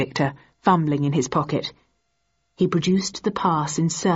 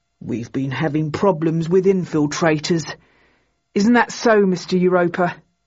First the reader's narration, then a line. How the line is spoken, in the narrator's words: The second man grunted